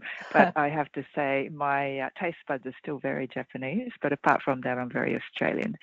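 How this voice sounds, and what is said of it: Australian accent. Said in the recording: “I am Australian, though, as I'm sure people can hear in my accent.”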